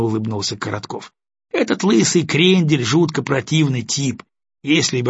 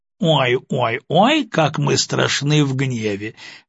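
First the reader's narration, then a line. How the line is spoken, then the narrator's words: Loud laughter. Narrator (Russian): расхохотался Коротков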